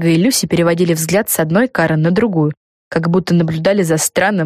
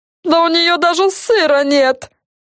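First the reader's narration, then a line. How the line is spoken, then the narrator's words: Yelling. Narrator (Russian): заорала Карен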